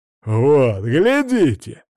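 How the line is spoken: Exclaimed. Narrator (Russian): воскликнул он

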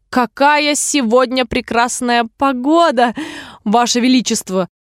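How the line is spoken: Trembling voice. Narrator (Russian): проговорила герцогиня дрожащим голосом

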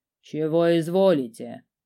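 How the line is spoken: Low-voiced inquiry. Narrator (Russian): низким голосом поинтересовалась она

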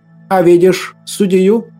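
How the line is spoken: Plain question. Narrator (Russian): спросила игуменья

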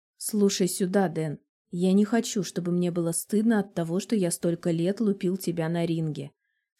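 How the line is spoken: Calm but cold. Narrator (Russian): спокойным, но холодным голосом произносит он

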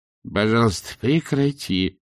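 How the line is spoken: Moaning plea. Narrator (Russian): простонал Ринсвинд

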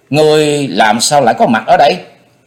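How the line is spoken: Angry loud shout. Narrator (Vietnamese): vừa giận vừa quán, cô hét to

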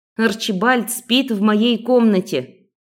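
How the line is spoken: Growled retort. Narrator (Russian): рыкнула в ответ

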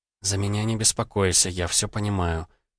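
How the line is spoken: Barely audible whisper. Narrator (Russian): еле слышным шепотом произнесла она

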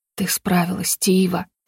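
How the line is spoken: Hoarse rasp. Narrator (Russian): прохрипел он

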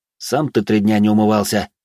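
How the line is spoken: Sighing. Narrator (Russian): вздохнул

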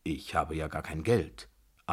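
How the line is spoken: Calm. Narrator (German): antwortete ruhig

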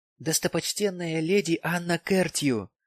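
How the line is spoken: Reverent whisper. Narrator (Russian): произнес он благоговейным шепотом

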